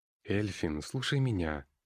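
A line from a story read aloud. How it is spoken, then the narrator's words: Calm persuading. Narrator (Russian): начал спокойно внушать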